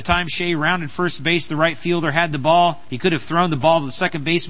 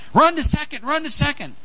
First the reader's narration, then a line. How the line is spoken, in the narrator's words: Everyone yelled